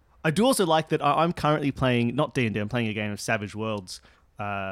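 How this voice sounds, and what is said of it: Usual voice. Nothing is said of it.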